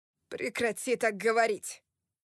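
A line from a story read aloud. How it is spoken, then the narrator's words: Thundering voice. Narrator (Russian): Прогремел я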